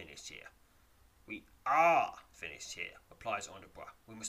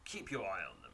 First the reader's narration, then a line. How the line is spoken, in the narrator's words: he mutters